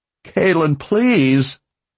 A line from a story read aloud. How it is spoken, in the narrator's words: he cried